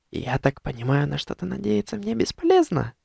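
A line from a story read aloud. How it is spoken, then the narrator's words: Soft whisper close to ear. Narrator (Russian): тихо прошептала практически мне в ухо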